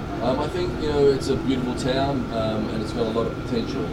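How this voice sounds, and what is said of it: Non-local accent from further south. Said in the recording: “you can tell my accent's not from here. It's a little south of here.”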